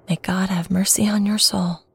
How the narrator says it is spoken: she whispered

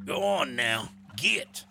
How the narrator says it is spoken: one of them cackled from the middle of the river

